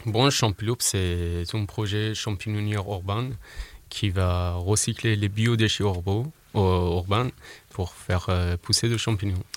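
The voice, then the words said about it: Iranian-accented French. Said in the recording (French): “ce bel accent. nous vient d'Iran, donc c'est pour ça qu'on aura un bel accent”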